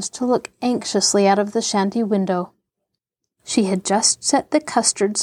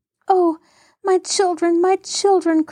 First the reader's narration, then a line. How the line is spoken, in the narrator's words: cried Mary as she hurried along